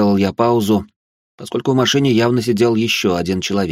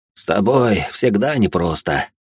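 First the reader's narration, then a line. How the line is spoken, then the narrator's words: Sighing. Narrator (Russian): Вздохнул он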